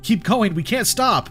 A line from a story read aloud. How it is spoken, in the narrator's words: yelled, urging them